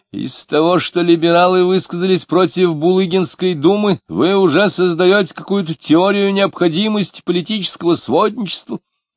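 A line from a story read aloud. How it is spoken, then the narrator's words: Many voices shouting fiercely. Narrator (Russian): Разноголосо, но одинаково свирепо закричали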